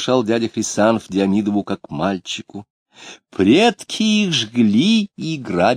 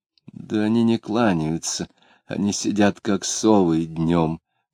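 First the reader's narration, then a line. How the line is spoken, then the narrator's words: Muttering. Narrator (Russian): пробормотал Диомидов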